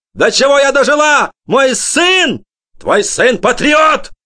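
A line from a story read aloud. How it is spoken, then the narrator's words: Father yelling. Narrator (Russian): заорал папа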